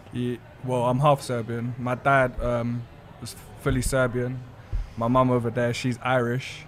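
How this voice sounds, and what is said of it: Soft-spoken London accent. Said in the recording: “I've lived in London my whole life, so I've got a London accent... You're a soft talker.”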